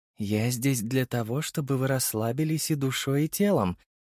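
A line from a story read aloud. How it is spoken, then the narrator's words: Young woman purring into ear. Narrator (Russian): промурлыкала девушка на ухо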